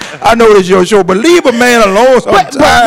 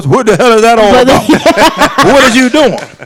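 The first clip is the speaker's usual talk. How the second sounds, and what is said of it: Imitates another person's voice. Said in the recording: “in my Bernie Mac voice”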